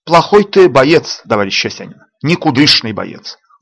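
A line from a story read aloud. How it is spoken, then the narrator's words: Concerned, not angry. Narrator (Russian): говорил он не зло, а озабоченно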